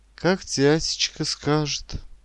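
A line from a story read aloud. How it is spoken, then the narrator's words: Heavy sigh. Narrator (Russian): тяжело вздохнула она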